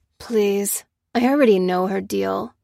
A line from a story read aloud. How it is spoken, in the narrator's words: grunted Ruth